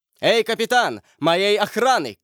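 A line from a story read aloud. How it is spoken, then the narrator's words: Shouted. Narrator (Russian): крикнул он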